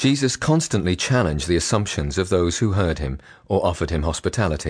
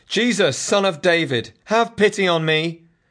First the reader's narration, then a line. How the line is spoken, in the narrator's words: he continued shouting